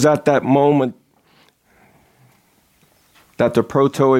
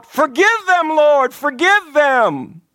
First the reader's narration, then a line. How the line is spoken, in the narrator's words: Christ's blood shed for the ungodly, my brothers, cried out